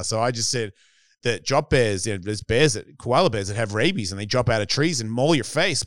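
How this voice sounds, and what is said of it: Australian accent. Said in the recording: “my accent. The accent was killing ... Australians ... growing up in Australia”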